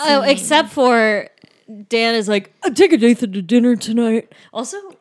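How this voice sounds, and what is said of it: Imitates another person's voice. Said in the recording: “my Dan impression is getting so good”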